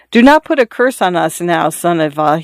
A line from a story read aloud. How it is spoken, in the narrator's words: he said timidly